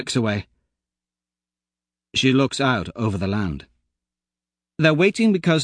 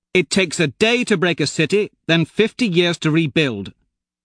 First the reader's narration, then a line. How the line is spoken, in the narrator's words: Mustang snaps